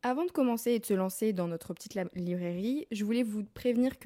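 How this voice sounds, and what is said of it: Slight southern French accent. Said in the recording (French): “j'ai pris un petit accent du sud”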